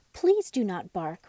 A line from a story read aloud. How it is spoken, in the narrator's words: Raggedy Andy cried